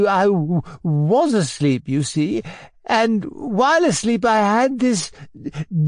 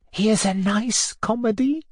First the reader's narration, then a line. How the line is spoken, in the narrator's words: whispered Felisata Mikhailovna to her neighbour